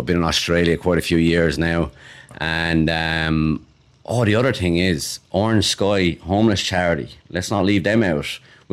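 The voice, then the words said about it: Irish Waterford accent. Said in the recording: “Irish accent, not a Cork accent ... Waterford all the way”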